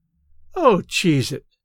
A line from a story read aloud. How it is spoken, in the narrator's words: said Maisie, wearily